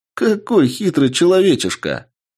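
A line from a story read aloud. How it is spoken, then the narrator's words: Laughing boy. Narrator (Russian): Мальчик рассмеялся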